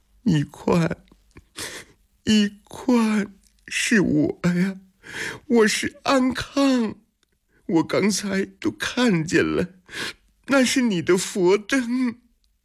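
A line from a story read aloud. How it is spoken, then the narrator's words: Crying out in pain. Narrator (Chinese): 安康顾不上疼痛，哭喊起来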